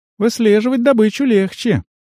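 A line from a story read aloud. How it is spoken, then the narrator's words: Sighing. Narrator (Russian): Туай вздохнула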